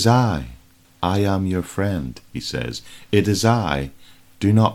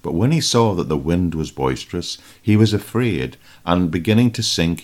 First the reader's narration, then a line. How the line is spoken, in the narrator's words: he cried out